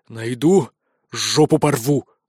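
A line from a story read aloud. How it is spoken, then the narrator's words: Furious growl. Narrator (Russian): рычал Хантович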